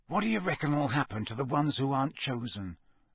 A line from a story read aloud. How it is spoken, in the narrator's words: Ron muttered to Harry